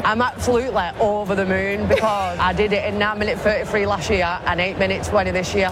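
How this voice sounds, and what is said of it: Wigan English accent. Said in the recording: “She's from Wigan. ... You can tell she's from Wigan. ... I love that accent.”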